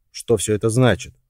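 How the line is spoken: Sharp question. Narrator (Russian): резко спросил Джон

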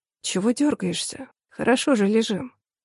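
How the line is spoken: Reproachful, long sigh. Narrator (Russian): Протяжно вздохнул, упрекнул он

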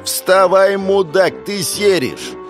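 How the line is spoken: Yelling. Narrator (Russian): она бы сейчас орала

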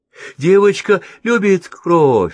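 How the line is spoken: Sing-song. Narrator (Russian): сказал Витя нараспев

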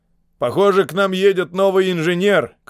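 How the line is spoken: Shout. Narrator (Russian): крикнул он

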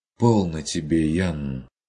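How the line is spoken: Relieved sigh. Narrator (Russian): С облегчением вздохнул Курт

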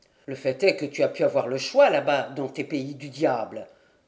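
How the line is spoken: Old man grumbling, slightly offended. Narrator (French): grommela le vieillard, légèrement vexé

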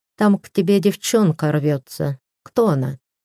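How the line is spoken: Sighing. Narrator (Russian): вздохнула и сказала

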